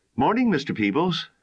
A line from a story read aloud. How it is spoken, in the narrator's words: Nina called out cheerfully